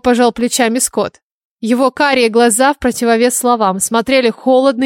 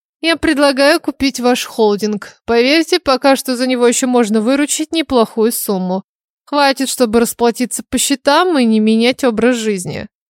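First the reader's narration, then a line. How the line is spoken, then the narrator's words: Exaggerated heavy sigh. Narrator (Russian): преувеличенно тяжело вздохнув Эндрю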